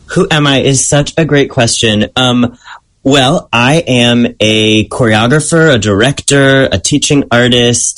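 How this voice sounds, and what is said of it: Strong American accent. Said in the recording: “really strong American accent”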